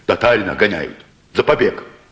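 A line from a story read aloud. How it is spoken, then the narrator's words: Angry. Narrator (Russian): сердито сказал кузнец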